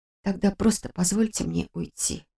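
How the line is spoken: Quiet plea. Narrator (Russian): тихо попросила я

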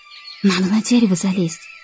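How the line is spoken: Whisper. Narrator (Russian): прошептала Ксюша

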